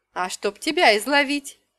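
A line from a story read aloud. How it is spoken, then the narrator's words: Witch's giggle. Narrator (Russian): хихикнула ведьма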